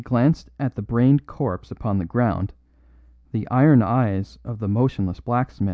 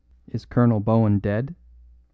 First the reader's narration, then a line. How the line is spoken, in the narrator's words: said the smith quite calmly